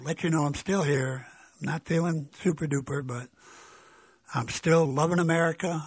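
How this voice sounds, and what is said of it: Weak, tired voice. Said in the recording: “I'm getting tired. My voice is weak”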